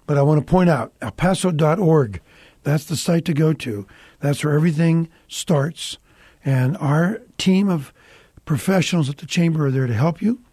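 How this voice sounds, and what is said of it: Hoarse voice. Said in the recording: “I'm going hoarse this afternoon”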